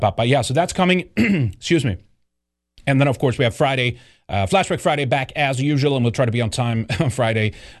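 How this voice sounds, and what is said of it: Strained, nearly lost voice. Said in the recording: “I'm almost losing my voice”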